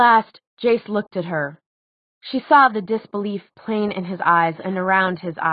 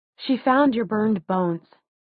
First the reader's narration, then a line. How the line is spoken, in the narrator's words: said Clary quietly